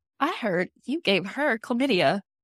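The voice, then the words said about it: Put-on accent. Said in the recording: “I'm just gonna like randomly start saying that to people in the accent.”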